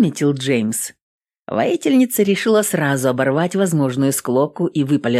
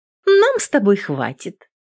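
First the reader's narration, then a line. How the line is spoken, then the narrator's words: Cheerful. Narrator (Russian): бодро ответила Адель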